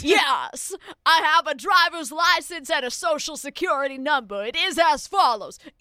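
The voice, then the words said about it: Imitates another person's voice. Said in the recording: “Kevin Spacey's accent from House of Cards”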